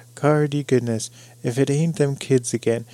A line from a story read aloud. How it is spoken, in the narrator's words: he exclaimed